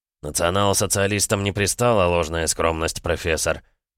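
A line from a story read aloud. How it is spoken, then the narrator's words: Dry objection. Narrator (Russian): довольно сухо возразил Геббельс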